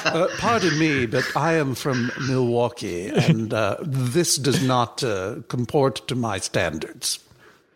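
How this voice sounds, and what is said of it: Mocking imitation of posh accent. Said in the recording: “Mid-Atlantic Higgins or Thurston Howell III ... That is a Milwaukee accent if I've ever heard one, sir. ... I don't mean to make fun of the way you talk, sir. I mean, I guess I did mean to”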